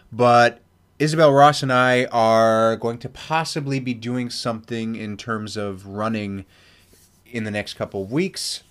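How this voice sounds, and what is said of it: Congested, stuffy-nosed voice. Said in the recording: “I sound congested a little bit more now because since I've started doing this mini, I've sneezed about 500 times”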